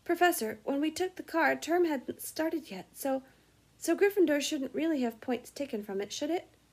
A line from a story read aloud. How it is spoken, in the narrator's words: He finished, anxiously